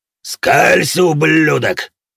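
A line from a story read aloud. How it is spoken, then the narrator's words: Monstrous roar. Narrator (Russian): проревел в ответ монстр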